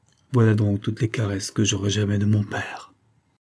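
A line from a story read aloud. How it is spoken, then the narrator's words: Sighing. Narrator (French): dit-elle avec un soupir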